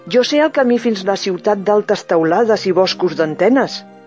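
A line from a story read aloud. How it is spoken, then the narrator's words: Exclaiming. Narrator (Catalan): va exclamar craca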